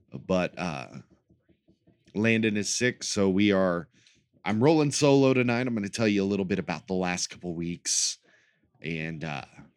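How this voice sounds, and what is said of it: Deep voice, sounds like a cold. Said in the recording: “The colds have been going through both of our households ... my voice is a lot deeper than it usually is. And more, how would we say, late night radio talk show host sounding”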